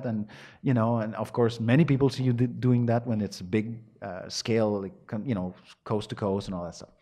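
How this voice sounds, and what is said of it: Montreal French-Canadian accent. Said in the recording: “We have our own language, as you can tell from my accent, which is, will not leave, it will not go away ever.”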